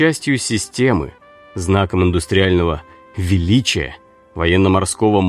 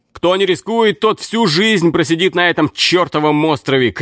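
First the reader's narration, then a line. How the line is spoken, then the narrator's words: Shouting. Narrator (Russian): кричал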